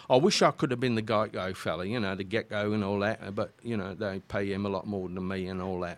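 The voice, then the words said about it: Put-on Cockney accent. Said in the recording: “you can do a lot of the Cockney accent and all that kind of stuff”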